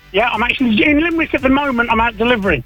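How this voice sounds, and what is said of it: Birmingham English accent. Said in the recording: “it sounds like you're not from Tipperary or Limerick originally ... originally from Birmingham ... you've hung on to the accent. I can still make it out there.”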